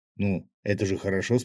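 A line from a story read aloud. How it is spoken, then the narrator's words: Plain question. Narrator (Russian): спросил рыбак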